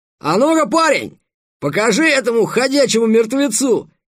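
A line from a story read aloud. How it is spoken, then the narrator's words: Young soldier's bold shout. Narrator (Russian): крикнул сидящий впереди солдат, еще довольно молодой, но бравый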